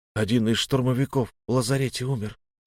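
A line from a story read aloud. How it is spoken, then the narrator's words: Quiet. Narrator (Russian): тихо сказал мой друг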